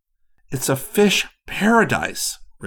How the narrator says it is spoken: Rick said excitedly

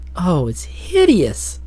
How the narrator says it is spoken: she exclaimed

